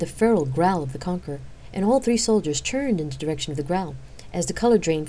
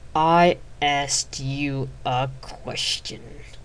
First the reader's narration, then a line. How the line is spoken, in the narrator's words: hissed